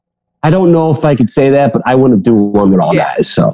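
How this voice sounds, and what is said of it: Strong Chicago accent. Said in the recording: “this Chicago accent... my voice is so obvious”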